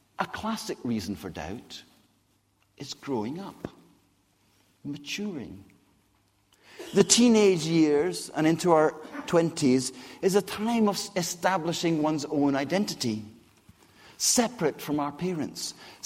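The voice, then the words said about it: Scottish accent. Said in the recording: “how I got a Scottish accent”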